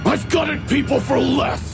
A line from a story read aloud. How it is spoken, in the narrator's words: He snarled